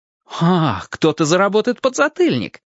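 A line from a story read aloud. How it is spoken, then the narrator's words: Laughing. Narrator (Russian): Зорко засмеялся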